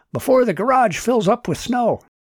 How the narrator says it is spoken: Martin shouted

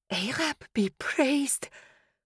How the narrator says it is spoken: I whispered

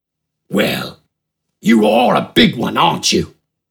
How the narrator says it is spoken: Smidgen rasped through a crooked grin

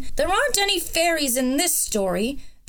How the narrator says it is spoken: the dragon interrupted crossly

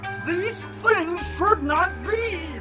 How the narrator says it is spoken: the fish quavered

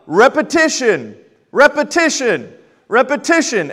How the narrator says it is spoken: he would yell

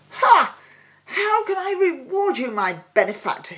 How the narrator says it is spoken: he cried

